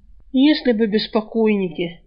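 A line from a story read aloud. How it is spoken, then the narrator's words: Glum snort. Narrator (Russian): невесело хмыкнул Альк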